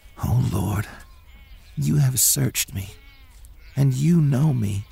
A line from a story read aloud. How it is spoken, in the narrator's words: he whispered